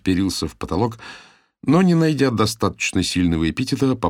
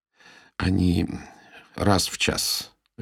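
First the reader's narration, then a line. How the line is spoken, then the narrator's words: Listless mumble. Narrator (Russian): вяло промямлил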